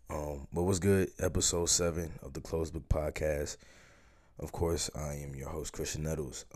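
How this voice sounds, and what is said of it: Sick-sounding, affected voice. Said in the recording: “Excuse my voice. ... I don't know if you can tell by my voice. Yesterday, I found out I had COVID, so I'm not feeling the best right now.”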